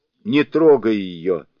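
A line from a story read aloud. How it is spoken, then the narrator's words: Shouting. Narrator (Russian): закричал Сунь-Укун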